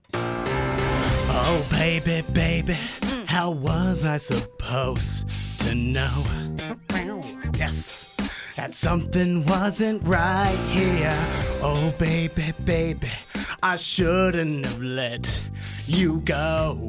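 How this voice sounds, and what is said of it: Hoarse, voiceless singing. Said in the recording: “I lost my voice. ... So it's going to sound like this.”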